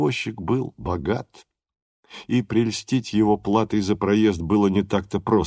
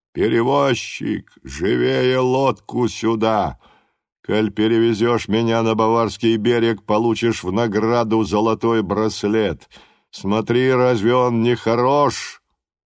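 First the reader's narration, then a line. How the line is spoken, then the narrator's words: Booming loud shout. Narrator (Russian): Зычным голосом, легко пересекшим Дунай, владетель тронья закричал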